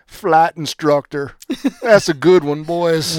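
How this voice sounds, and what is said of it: Poor Jeff Brantley impersonation. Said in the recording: “my Jeff Brantley impersonation sucks”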